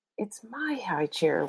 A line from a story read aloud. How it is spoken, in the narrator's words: whispered Peter